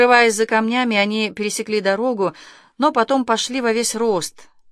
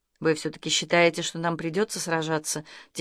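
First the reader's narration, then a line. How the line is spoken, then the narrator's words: Quiet girl's question. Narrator (Russian): тихо спросила девушка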